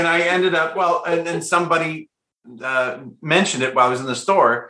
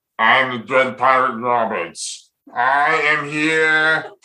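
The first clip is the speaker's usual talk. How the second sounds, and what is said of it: Imitates another person's voice. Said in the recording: “they encouraged me to do the impersonation. It was Andre the Giant ... you have an Andre the Giant impersonation”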